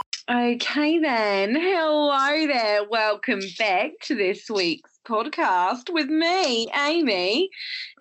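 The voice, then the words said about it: Put-on Australian accent. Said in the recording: “I'm speaking in Australian accent”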